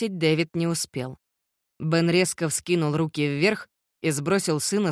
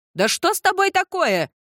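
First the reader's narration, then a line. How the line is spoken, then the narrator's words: Angry shout. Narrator (Russian): закричала она сердито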